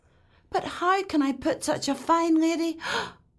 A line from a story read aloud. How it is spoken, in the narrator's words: He gasped